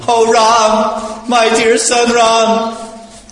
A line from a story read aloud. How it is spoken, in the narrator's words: Lamenting in grief for the death of her husband, the most chaste Renuka cried loudly